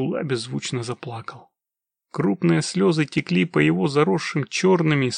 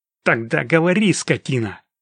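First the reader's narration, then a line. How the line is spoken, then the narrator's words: Sharp shout, bandit. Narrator (Russian): резко меняет тон, прокричал бандит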